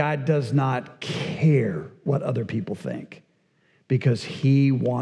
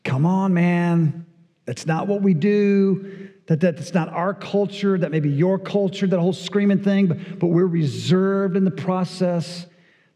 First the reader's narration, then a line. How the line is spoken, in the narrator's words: he shouts